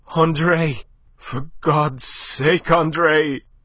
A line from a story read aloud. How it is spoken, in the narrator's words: panted hoarsely over her shoulder